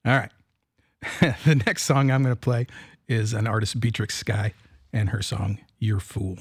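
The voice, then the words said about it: Rough-sounding voice, stumbling speech. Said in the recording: “My voice is bad. I'm stumbling over my words”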